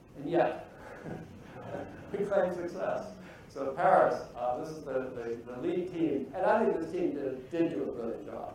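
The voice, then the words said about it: Foreign-accented English. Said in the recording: “You probably can tell from my accent, I'm coming from a very disturbed land these days”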